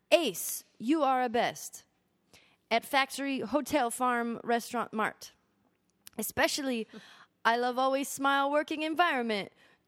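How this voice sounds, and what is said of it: Put-on Korean accent. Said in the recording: “Okay, he's Korean. I can't do a Korean accent.”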